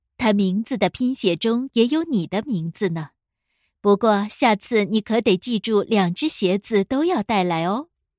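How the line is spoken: Smiling teacher. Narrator (Chinese): 罗莎老师笑着说

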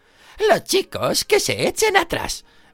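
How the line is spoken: Powerful exclaiming teacher's voice. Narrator (Spanish): exclamó con voz potente la profesora Gurbin Plank

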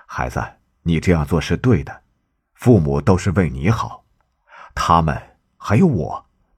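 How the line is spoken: Smiling. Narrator (Chinese): 圣地亚哥……微笑着说

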